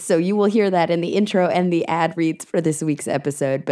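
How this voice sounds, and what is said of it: Hoarse, sick-sounding voice. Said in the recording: “I'm a little bit sick and I've lost my voice.”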